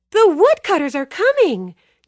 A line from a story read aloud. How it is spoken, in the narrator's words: Joe-Jack screeched